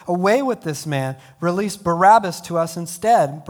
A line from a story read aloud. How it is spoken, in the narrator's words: the whole crowd shouted